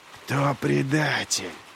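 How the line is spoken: Hiss. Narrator (Russian): прошипел Глокта

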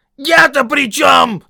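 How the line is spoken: Yelling. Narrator (Russian): завопил Том

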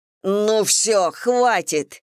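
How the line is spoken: Barked. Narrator (Russian): рявкнула Мэгги

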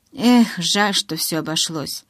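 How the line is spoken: Sigh. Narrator (Russian): вздохнул Тайлер

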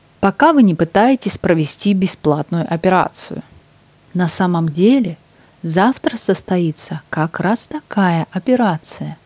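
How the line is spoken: Conspiratorial. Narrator (Russian): сказал Росс заговорщическим тоном

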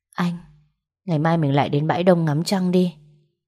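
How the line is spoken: Sighing. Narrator (Vietnamese): Tôi thở dài một tiếng

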